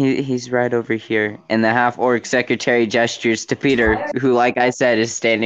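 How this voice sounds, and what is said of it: Usual voice. Nothing is said of it.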